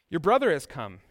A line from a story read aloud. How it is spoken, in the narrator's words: he replied